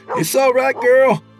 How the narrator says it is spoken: Eric shouted

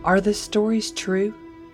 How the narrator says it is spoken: he asked, his voice trembling

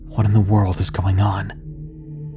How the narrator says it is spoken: whispered

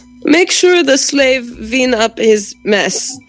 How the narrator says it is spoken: Helga laughed

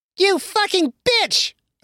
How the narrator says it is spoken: a tiny voice screamed

